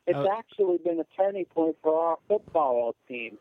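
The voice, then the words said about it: Imitates another person's voice. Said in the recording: “Is that a good impersonation?”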